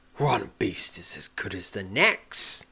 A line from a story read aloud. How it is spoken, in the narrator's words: sneers the young man